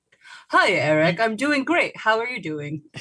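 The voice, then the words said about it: Put-on radio host voice. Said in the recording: “doing a little radio voice there, and I feel like I should do one.”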